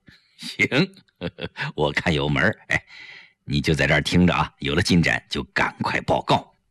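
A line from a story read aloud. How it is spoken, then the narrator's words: Quiet laughing. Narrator (Chinese): 程寒三就笑了，他小声笑着对胡威说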